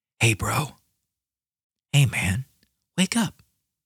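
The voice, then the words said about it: Soft whisper. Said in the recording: “I'm whispering softly”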